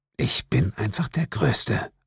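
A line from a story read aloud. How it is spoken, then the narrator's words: Murmured. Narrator (German): murmelte ich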